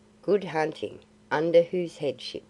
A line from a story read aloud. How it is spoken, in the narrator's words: said Phao gravely